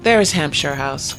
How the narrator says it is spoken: called the carriage man

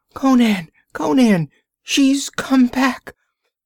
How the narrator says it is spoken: The shriek ended in a gurgle and a scraping scuffle

